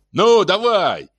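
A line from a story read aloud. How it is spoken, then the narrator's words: Shout. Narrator (Russian): крикнул Риос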